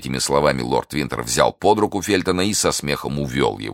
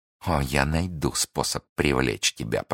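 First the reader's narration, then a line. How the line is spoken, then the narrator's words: Whispered through teeth. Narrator (Russian): прошептала Миледи сквозь зубы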